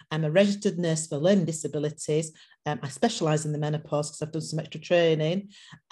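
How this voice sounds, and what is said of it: Speaks with a noticeable accent. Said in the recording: “you have a beautiful accent ... you also have some Caribbean roots ... living in the UK”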